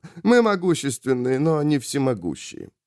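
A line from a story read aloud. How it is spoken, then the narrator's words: Laughing dandy. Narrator (Russian): засмеялся этот странный франт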